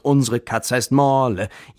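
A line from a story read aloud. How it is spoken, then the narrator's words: Loud exuberant singing. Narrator (German): Sie lachten übermütig und Suse sang laut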